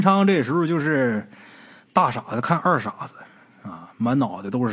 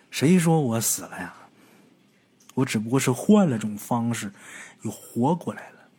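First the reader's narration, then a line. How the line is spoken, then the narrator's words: Muttering to himself. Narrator (Chinese): 苏文昌自己嘀咕这么一句话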